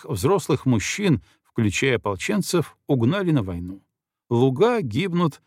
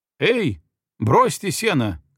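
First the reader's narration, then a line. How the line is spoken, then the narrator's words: Shouting. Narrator (Russian): крикнул я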